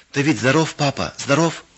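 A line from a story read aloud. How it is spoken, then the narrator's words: Joyful question. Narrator (Russian): спросила Лина радостно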